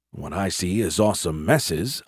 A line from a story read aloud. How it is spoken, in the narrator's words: I muttered